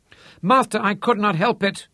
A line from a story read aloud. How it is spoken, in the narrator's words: shrieked Pig John